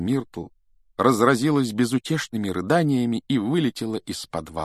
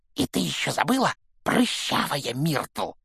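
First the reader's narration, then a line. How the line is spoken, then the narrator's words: Hissed into ear. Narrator (Russian): прошипел ей в ухо Пивз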